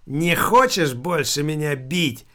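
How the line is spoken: Shouting. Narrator (Russian): закричал Филипп

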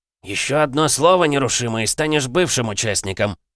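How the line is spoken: Barking. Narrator (Russian): рявкнул Лев Витаутович

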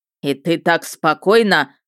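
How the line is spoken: Barked by dragon. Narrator (Russian): рявкнул дракон

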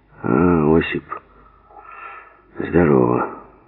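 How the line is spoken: Hoarse reply. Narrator (Russian): Сипло отозвался Голохвост

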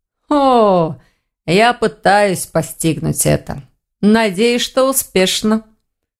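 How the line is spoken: Amused snort. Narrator (Russian): хмыкнул Гварен

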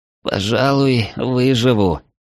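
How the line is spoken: Hoarse rasp. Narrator (Russian): прохрипел Ярослав

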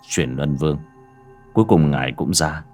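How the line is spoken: Soft-spoken. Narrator (Vietnamese): Bác cổ miệng khẽ nói

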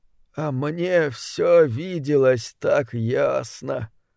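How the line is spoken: Menacing mumble. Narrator (Russian): пробормотал Фасоль опасно для жизни

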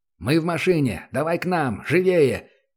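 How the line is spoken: Shouted over radio. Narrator (Russian): крикнул в эфир первый Центурион

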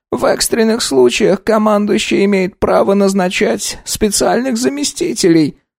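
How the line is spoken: Dull colorless voice. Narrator (Russian): сообщил блеклый Козицкий блеклым голосом

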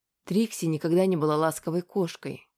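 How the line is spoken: Plain. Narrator (Russian): сказала она

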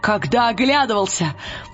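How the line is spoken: Exclaiming. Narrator (Russian): воскликнул он

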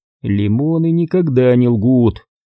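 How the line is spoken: Bitter sigh. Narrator (Russian): с горечью вздохнул Грофилд

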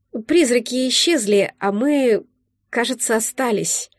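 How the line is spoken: Uncertain. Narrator (Russian): произнесла я неуверенно

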